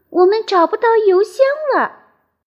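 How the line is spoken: Shout. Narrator (Chinese): 佩奇叫道

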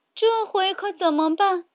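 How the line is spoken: Shouting. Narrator (Chinese): 茉莉大叫

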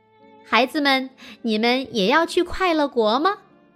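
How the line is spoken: Laughing question. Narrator (Chinese): 他笑着问

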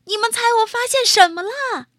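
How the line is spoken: Shouting loudly. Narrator (Chinese): 他就大叫起来

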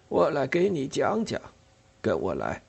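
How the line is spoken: Sighing. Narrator (Chinese): 他叹着气说

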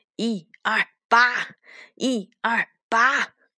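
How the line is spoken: Effortful shout. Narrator (Chinese): 为了集中力气，他喊道

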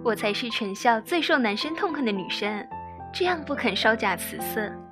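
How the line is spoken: Giggling. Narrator (Chinese): 如愿就笑嘻嘻地

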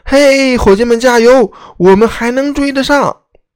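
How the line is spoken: Loud shout. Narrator (Chinese): 杰克大声的喊

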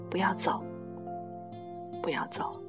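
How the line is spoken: Murmuring. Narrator (Chinese): 他 喃喃地说

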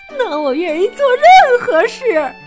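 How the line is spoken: Crying. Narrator (Chinese): 索菲亚夫人边哭边说

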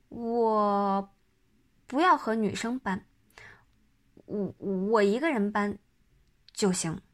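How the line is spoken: Stammering. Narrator (Chinese): 张达结结巴巴的声明

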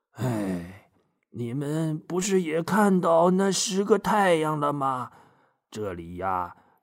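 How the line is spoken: Sighing old man. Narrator (Chinese): 白胡子爷爷叹了口气说

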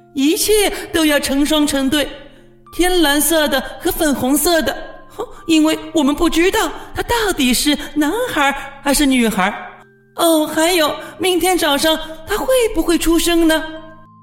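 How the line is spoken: Excited shouting. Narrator (Chinese): 霍库斯叫喊着

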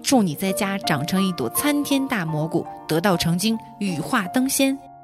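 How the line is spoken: Furious scolding. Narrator (Chinese): 怒发冲冠，骂

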